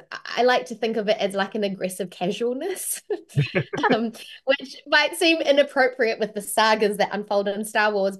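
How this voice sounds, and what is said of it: New Zealand accent. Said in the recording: “my own natural accent, which is a New Zealand accent.”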